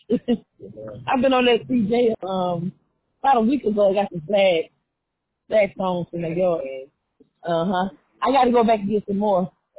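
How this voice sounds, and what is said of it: Slightly hoarse voice. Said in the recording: “I'm a little hoarse.”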